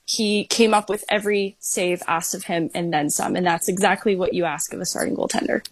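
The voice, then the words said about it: Slight Canadian accent. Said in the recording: “I heard a little Canadian in your accent there ... I heard it in there. I heard it very clearly.”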